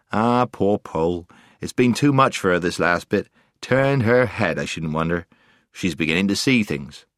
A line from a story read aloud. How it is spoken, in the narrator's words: she heard Puddleglum mutter